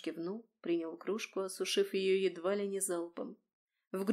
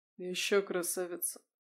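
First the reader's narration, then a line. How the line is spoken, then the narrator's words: Tired smiling voice. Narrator (Russian): Устало улыбнулся он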